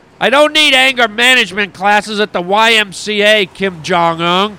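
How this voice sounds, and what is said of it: Angry, raised voice. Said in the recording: “you sure sound angry to me ... There you go, raising your voice”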